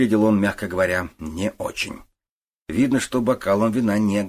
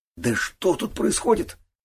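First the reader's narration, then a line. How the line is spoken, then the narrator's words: Breathless. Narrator (Russian): выдохнул парень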